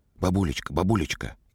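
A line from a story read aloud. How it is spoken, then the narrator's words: Child's whisper. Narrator (Russian): Коля зашептал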